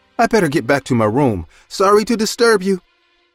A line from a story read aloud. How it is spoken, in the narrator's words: She said in a frightened voice